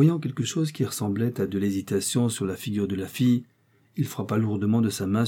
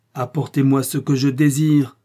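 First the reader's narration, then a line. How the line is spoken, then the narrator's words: Roared. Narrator (French): rugit-il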